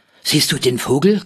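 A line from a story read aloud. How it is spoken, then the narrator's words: Panting older boy. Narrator (German): keuchte Rolf, der ältere der beiden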